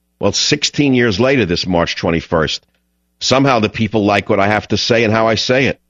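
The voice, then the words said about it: Distinct New York accent. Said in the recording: “I have a very distinctly New York accent ... he's too New York”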